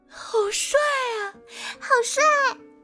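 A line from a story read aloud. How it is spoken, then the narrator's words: Excited girls shouting. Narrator (Chinese): 还有些女孩子都情不自禁地喊着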